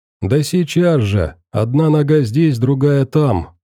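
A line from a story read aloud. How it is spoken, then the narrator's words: Joyful old man. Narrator (Russian): радостно сказал старик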